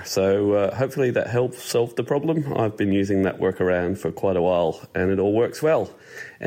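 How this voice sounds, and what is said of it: Slight Australian accent. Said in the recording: “a tinge of an Australian accent working its way in there ... he doesn't sound Scottish”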